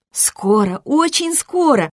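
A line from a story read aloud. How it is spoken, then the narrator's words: Reassuring young woman. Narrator (Russian): заверила девушка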